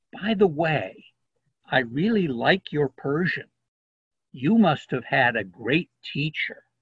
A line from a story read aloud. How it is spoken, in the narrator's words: Niloufar whispered to the American